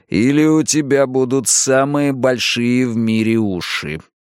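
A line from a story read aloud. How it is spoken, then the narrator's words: Through teeth, beast. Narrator (Russian): процедил зверюга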